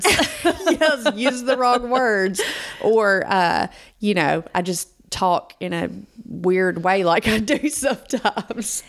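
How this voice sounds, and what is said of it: Georgia Southern US accent. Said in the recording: “We're from Georgia. ... you can't really get away from that accent.”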